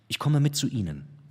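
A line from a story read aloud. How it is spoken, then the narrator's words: Plain. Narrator (German): sagte sie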